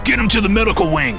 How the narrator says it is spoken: Griffith snapped

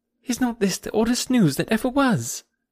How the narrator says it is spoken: cried Harriet, coming eagerly

